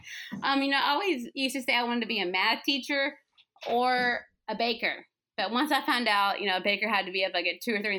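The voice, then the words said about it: Southern accent, fast speech. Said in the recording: “my Southern accent and I speak fast”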